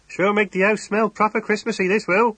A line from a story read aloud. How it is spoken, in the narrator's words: he chuckled